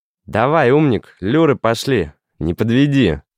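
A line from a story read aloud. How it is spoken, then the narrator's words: Child shouting. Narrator (Russian): крикнул маленький Мишка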